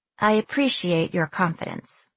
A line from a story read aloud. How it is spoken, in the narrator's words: I said in a flat tone